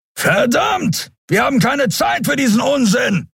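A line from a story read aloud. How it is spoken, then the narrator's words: Called out. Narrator (German): rief Keru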